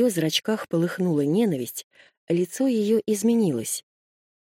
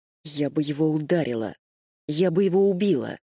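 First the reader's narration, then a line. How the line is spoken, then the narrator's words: Through clenched teeth. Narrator (Russian): сквозь зубы процедила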